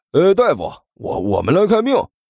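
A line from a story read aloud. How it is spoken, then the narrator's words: Calling out. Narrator (Chinese): 关小雨喊了一声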